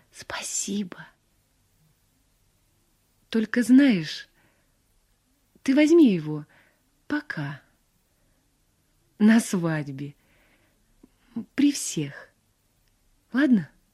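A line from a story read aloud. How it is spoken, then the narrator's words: Whispering. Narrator (Russian): Мария шепнула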